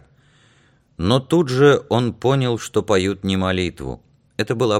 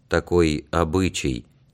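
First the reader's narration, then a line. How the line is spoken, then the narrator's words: Quiet old man. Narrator (Russian): тихо проговорил старик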